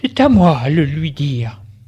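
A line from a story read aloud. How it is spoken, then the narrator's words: Sighing woman. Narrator (French): Elle soupire et dit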